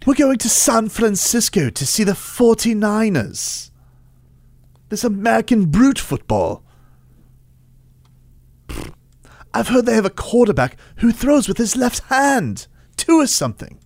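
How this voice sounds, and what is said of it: Put-on British accent. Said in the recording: “Any excuse to pull out the British accent, huh?”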